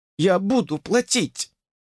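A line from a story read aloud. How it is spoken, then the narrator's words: Babbling. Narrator (Russian): залепетала она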